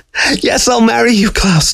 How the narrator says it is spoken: Dixie cried out

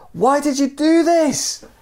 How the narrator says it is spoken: yelled

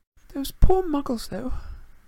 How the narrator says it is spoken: said Hermione nervously

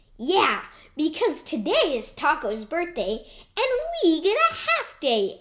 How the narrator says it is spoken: exclaimed Pizza Man

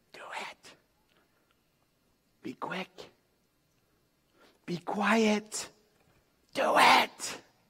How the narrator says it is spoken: David's men whispering

